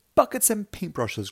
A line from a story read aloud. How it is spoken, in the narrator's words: cried Muggle-Wump